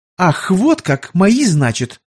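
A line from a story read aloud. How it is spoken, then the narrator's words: Indignant interruption. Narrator (Russian): возмущенно оборвала брата княжна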